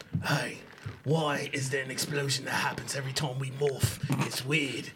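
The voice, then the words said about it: Imitates another person's voice. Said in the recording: “ask why is there an explosion that happens in a Scottish accent ... I sound like Jason Statham.”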